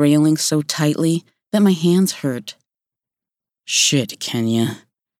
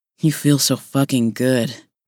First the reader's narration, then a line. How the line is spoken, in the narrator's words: he growled